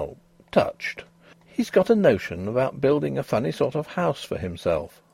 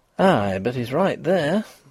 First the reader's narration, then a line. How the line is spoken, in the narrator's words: breathed Mrs